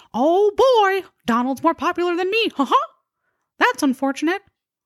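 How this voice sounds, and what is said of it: Mickey Mouse cartoon voice impression. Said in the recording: “my best impersonation of Mickey Mouse”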